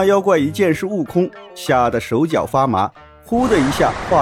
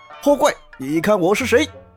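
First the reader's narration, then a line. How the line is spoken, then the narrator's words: Loud shout. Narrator (Chinese): 悟空……大叫道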